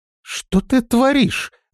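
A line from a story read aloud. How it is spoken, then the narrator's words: Exclaimed. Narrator (Russian): воскликнула Листи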